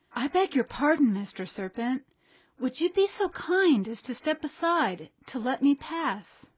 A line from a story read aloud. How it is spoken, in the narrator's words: Pinocchio, trying to feel very brave, said in a sweet, soothing voice